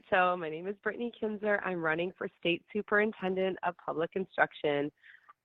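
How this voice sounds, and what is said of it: Voice with a cold. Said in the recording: “Well, I have a cold,”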